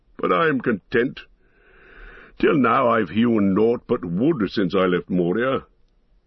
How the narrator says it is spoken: laughed the dwarf

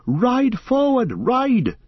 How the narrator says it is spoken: cried Glorfindel to Frodo

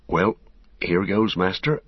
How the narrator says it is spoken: Sam muttered to himself

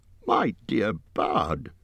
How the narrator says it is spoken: squeaked Bilbo

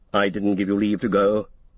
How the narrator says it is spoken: said Gandalf sternly

